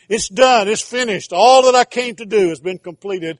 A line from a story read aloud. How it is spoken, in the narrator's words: angels echoing it through heaven and shouting it for all of eternity